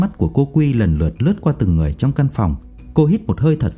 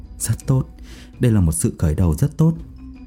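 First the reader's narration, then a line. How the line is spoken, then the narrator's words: Soft laugh. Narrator (Vietnamese): Anh Tê khẽ cười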